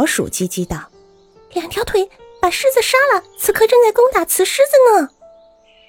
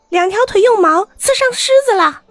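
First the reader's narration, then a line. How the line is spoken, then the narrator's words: Crow's cry. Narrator (Chinese): 乌鸦叫道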